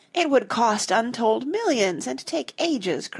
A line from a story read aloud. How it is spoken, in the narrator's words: cried Jane